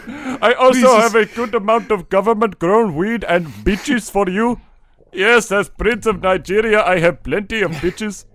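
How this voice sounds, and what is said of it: Put-on Indian accent. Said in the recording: “that's an Indian accent.”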